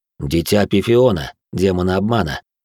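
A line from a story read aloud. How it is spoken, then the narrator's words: Tired. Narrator (Russian): ответил отец Павел, устало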